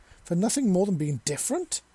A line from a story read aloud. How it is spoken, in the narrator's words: He exclaimed angrily